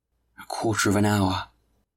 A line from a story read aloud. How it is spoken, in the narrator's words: exclaimed Madeleine